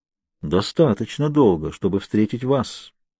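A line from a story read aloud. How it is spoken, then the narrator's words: Smooth polite insinuating. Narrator (Russian): он говорил вкрадчиво и учтиво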